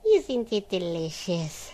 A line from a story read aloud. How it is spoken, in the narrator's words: sighed Odile